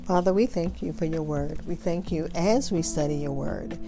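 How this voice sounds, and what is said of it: Strained voice, going out. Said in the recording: “forgive my voice. It's going out now”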